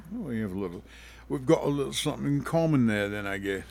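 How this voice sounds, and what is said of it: Put-on Cockney accent. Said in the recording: “That's a Cockney accent if I've ever heard one. You've been hanging out with Dick Van Dyke?”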